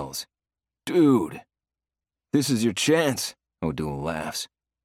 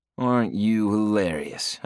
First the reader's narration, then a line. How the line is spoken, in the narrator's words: I drawl